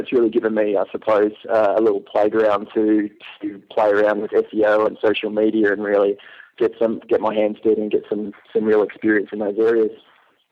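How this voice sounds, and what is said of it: Non-American accent. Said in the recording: “I love your accent. ... It seems to be a very popular accent with the Americans.”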